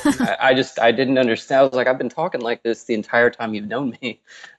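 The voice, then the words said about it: Southern US accent. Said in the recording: “Southerners ... all the Yankees started making fun of my accent.”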